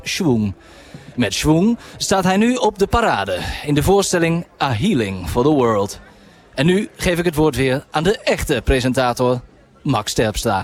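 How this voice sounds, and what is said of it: Old-fashioned Dutch newsreader voice. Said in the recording (Dutch): “je bent ook een soort nieuwslezer ... Het deed me ook denken aan een presentator van vroeger. Omdat je een beetje zo'n oud Nederlands accent had bijna.”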